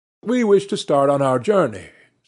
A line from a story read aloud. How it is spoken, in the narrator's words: said the Count